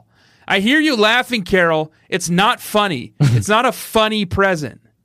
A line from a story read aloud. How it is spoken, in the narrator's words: Jeff yelled down from the hall